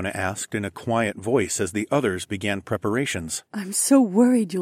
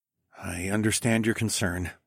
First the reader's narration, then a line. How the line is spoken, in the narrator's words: I murmured